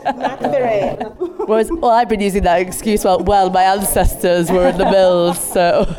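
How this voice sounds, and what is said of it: Nasal Mancunian accent. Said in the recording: “Mancunians and Liverpool natives have a very nasally accent ... we've got this, like, Mancunian ... Your age group of Manx are much more nasal than mine”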